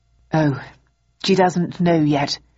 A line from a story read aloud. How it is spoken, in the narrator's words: replied Bowden, sighing